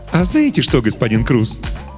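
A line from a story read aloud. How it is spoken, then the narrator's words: Cheerful. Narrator (Russian): весело сказал Добель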